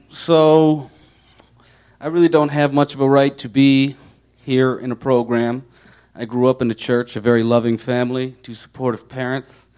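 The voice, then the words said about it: Chicago Midwestern accent. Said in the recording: “You can tell from my dialect that I am from Chicago... Midwest”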